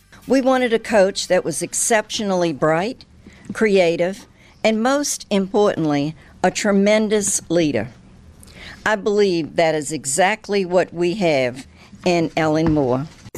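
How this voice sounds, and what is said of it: New Orleans accent. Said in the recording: “I love her accent. That New Orleans accent. ... It is like a little bit of like a Creole Kennedy or something to it.”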